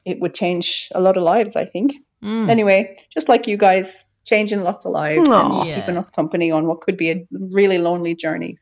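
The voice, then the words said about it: Speaks with a beautiful accent. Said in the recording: “Beautiful accent too.”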